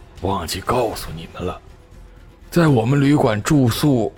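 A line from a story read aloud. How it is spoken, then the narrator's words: Heavy sigh. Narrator (Chinese): 那老板重重的叹了口气，说道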